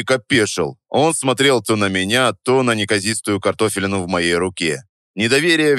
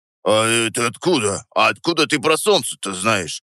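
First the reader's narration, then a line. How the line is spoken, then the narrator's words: Muttering. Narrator (Russian): пробормотал он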